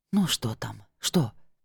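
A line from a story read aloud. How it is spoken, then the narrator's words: Whisper. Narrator (Russian): принялась шептать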